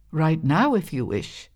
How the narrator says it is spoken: said Mother Holla

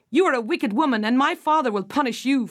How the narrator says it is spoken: Finola cried

